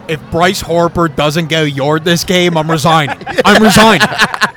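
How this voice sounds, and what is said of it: Put-on Delco accent, Delco dad. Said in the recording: “impersonation of him ... That accent is incredible. ... I got it down pat ... Delco accent”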